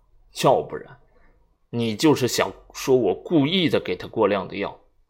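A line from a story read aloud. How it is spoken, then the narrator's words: Cold, barbed. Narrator (Chinese): 话中带着刺冷冷的说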